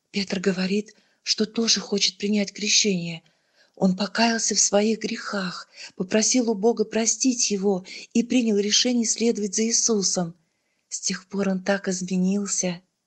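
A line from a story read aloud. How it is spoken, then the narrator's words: Whispered. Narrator (Russian): шепотом добавила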